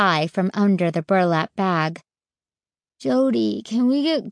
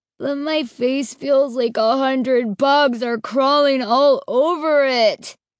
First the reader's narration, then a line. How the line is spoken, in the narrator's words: he wailed